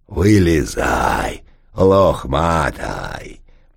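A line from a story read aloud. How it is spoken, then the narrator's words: Deep bass voice. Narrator (Russian): пробасил Толстой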